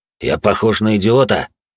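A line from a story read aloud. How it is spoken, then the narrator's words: Gruff snap. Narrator (Russian): огрызнулся седой и бородатый мужик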